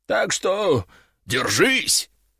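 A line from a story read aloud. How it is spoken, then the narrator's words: Theatrical growl, dragon. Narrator (Russian): Дракон картинно зарычал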